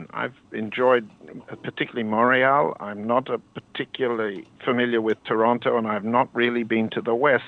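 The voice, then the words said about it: Non-Canadian foreign accent. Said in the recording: “You can hear my accent. Regrettably, I'm not Canadian ... a guy like me with this accent”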